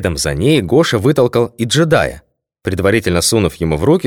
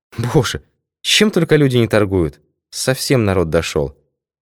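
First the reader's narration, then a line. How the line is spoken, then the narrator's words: Sighing. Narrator (Russian): Не по уставу вздохнула Лидия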